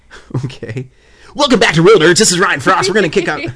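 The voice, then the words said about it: DJ radio announcer voice. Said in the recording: “I love that radio voice... do your DJ radio voice”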